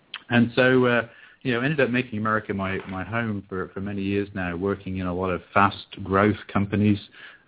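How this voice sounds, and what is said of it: English accent, not American. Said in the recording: “I don't sort of speak with a traditional American accent ... I was born and raised in England”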